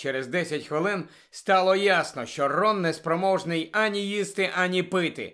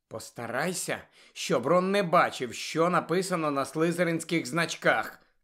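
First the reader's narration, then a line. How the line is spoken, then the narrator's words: Insistent whisper. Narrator (Ukrainian): наполегливо зашепотіла вона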